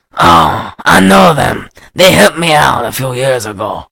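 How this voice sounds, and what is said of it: Bad put-on Paraguayan accent. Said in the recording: “a white guy doing a bad Paraguayan accent is my best accent.”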